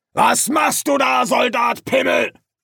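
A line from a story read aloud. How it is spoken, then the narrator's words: Shout right at ear. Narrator (German): eine Stimme an ihrem Ohr schrie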